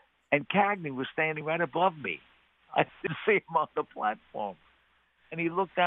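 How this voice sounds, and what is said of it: Usual voice. Nothing is said of it.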